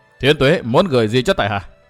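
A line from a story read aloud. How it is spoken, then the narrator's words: Stern voice. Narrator (Vietnamese): Màn Kinh Hồng nghiêm giọng nói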